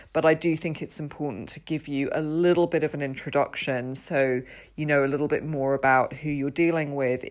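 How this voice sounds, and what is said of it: British accent. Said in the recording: “I'm in the UK, as you can probably tell from my accent.”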